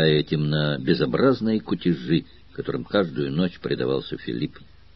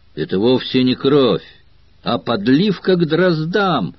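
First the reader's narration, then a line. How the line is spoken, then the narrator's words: Exclaimed. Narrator (Russian): Друс, увидев окровавленного Филиппа, воскликнул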